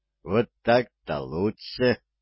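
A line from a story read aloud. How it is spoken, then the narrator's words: Soft laughter. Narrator (Russian): тихо рассмеялся Кальвин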